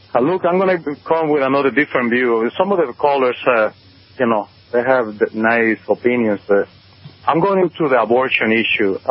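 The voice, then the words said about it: Spanish-accented English. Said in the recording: “my Spanish accent”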